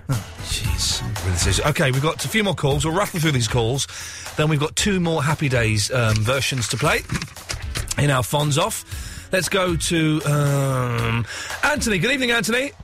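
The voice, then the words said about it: Hoarse, croaky voice. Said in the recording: “I've got a frog in my throat.”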